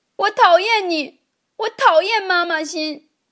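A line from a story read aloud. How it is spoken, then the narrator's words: Loud. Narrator (Chinese): 阿志大声的对老师说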